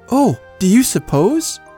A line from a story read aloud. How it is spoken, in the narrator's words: She gasped